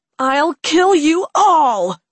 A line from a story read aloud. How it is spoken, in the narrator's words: she shouted